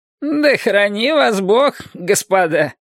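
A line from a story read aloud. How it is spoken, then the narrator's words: Mocking. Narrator (Russian): проговорил он насмешливо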